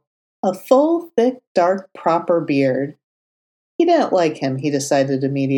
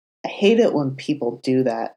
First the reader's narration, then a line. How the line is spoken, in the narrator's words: Matt mumbled, sighing to himself